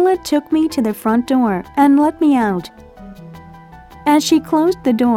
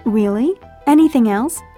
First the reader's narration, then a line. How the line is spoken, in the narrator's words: she asked